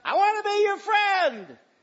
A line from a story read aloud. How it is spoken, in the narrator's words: he cried out